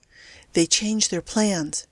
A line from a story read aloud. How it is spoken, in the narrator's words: said quietly